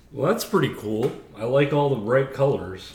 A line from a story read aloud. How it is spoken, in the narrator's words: said Beatrice